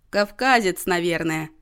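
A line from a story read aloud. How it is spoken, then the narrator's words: Short laugh. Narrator (Russian): хохотнул Иннокентий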